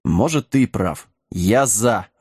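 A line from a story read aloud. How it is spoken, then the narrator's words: Growled. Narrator (Russian): рыкнул Сэм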